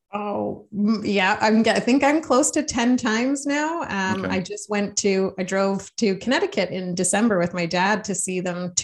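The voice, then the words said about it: Canadian accent. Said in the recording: “You got your Canadian accent. ... It's showing already.”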